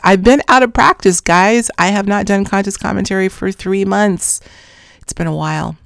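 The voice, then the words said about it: Strained, fading voice. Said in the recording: “I'm losing my voice. Can you tell? I am losing my voice.”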